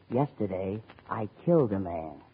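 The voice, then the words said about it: Whispering voice. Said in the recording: “Have you noticed I've been whispering? ... I lost my voice”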